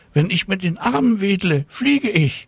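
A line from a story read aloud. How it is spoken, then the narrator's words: Called out. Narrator (German): rief Tina Luise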